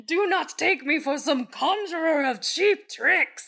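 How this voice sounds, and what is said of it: Gandalf impression, Ian McKellen voice. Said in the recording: “That's a good Gandalf impression. ... Sir Ian McKellen, are you in the room with me?”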